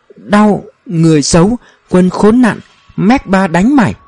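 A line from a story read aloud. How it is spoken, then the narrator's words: Sobbing stammer. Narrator (Vietnamese): Ông anh ngoài hành tinh này òa khóc, lắp bắp nói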